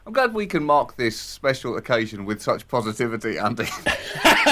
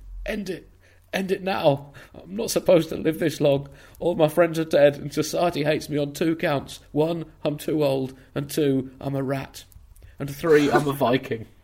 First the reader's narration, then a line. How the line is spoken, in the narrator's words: A Norwegian rat, gasping for air, squeaking